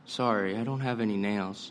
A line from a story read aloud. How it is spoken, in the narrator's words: The bartender looks taken aback and says quietly